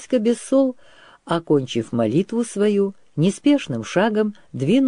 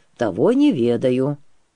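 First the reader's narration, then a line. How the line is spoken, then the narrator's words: Quiet. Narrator (Russian): тихо сказал Петрила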